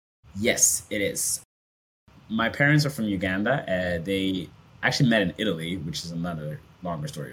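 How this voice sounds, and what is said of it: Somewhat American English accent. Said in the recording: “why I have somewhat of an American accent ... many of you have an”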